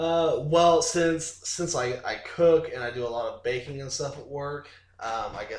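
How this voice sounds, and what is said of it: Usual voice. Nothing is said of it.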